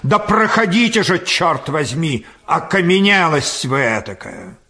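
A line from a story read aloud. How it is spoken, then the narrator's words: Irritated shout. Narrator (Russian): еще более раздраженный, крикнул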